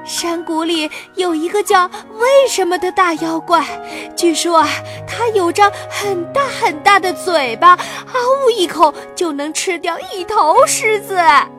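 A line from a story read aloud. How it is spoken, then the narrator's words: Panting. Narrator (Chinese): 小松鼠喘着气说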